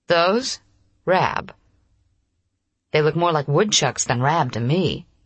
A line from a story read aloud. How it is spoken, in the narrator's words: he said